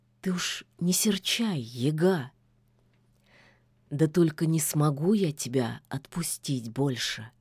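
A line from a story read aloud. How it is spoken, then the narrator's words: Quiet whisper. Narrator (Russian): тихо прошептал Кощей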